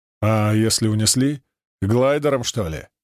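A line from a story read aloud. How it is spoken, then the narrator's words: Skeptical snort. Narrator (Russian): хмыкнул Семен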